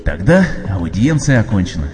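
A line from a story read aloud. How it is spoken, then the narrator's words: Relieved sigh. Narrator (Russian): вздохнул облегченный господь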